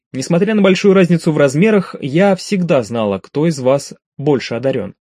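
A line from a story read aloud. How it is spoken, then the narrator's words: Plain. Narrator (Russian): ответила Скви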